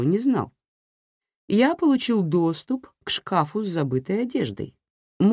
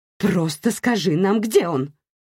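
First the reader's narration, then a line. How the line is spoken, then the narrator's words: Barking snap. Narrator (Russian): рявкнула Ширли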